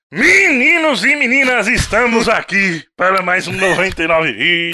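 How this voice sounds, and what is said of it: Imitates another person's voice. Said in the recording (Portuguese): “Essa imitação, ela é xenofóbica. O cara fez o Raul Gil ... pareceu o Raul Gil”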